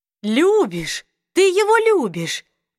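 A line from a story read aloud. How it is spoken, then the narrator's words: Joyful exclamation. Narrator (Russian): воскликнула Аматис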